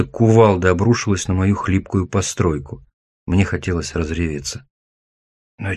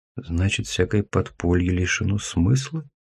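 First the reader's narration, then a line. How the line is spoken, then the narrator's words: Whispering. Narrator (Russian): прошептал я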